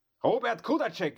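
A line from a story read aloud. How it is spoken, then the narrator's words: Calling out. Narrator (German): rief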